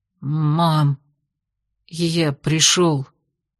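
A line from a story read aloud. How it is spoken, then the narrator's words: Hoarse, tearful breath. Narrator (Russian): хрипло выдохнул Кирсан, смаргивая набежавшую на глаза влагу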